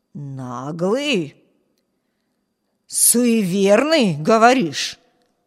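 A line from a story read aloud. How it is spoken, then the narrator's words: Wheezed. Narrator (Russian): прохрипел голос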